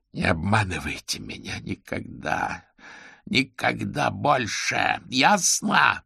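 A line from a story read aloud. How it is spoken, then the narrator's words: Growled. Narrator (Russian): прорычал он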